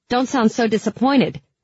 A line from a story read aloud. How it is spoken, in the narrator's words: I snapped